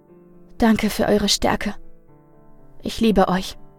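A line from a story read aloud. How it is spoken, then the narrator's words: Weak but convinced. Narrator (German): sagte schwach und doch voller Überzeugung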